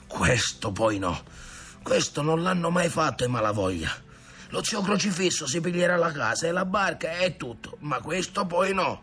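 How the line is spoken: Muttered. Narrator (Italian): Padron Ntoni borbottava

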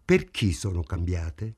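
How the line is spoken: Hostile tone. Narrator (Italian): chiese lui in tono ostile

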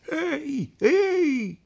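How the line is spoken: Shout. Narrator (Italian): gridò

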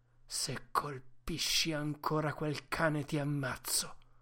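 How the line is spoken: Choked voice. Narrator (Italian): dire con voce strozzata

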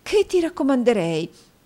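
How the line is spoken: Exclaiming. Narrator (Italian): esclamò la signora Nickleby

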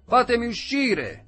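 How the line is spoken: Screaming. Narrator (Italian): urlava

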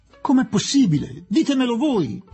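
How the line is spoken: Desperate childlike exclamation. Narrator (Italian): esclamò disperato come un bambino Aziz

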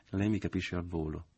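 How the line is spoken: Half-sighing. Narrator (Italian): disse con un mezzo sospiro

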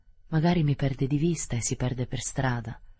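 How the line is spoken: Plain. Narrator (Italian): disse

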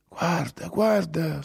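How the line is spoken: Trembling whisper. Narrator (Italian): sussurrò tremando

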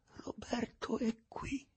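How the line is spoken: Hoarse, holding back sobs. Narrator (Italian): La sorella, dopo aver soffocato parecchie volte con sforzo un singhiozzo che le faceva impeto alla gola, disse alla fine con voce rauca

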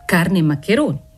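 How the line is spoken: Shop boy laughing retort. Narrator (Italian): ribatté ridendo il garzone

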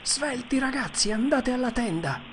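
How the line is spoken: Exclaimed. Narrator (Italian): esclamò Tom

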